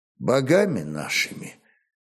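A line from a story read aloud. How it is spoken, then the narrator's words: Quiet, flat, confident warrior. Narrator (Russian): все так же тихо, без особого выражения, но уверенно молвил воин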